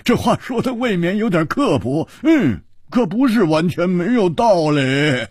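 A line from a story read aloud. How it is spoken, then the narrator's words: Loud laugh. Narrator (Chinese): 胡铁花大笑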